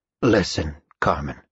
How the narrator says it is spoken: Father Wheatley said softly

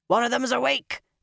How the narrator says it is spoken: a man's panicked voice shouted

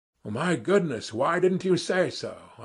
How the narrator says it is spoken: I cried, with an astonishingly free and easy air

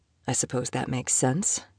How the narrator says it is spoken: he said quietly

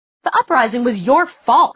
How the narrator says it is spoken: snapped Clary

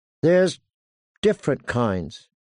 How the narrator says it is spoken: he said slowly

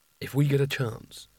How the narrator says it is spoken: whispered Rincewind to Nigel

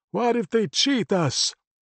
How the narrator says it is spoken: Only Loudmouth shouted

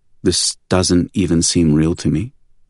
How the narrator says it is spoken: said Jasmine, her voice hollow

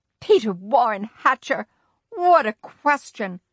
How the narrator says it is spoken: Grandma shouted

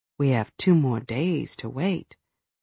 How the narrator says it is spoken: He whispered

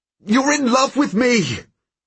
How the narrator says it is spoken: I shout at her now because I'm so angry at her for loving me

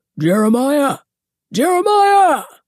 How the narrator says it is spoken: His booming voice

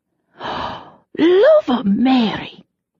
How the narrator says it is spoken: she breathed

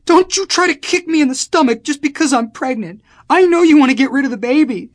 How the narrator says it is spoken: she screamed

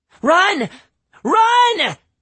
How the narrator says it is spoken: she screamed

